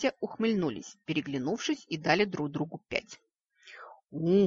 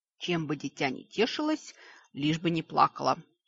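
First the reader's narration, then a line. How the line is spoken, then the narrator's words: Grim hiss. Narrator (Russian): мрачно прошипела левая полушария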